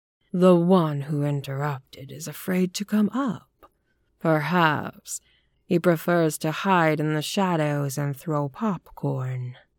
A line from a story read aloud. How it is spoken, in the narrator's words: he said in a purring, mocking voice